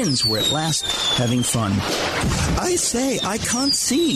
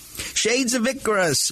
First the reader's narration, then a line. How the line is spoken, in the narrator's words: barked Muggsy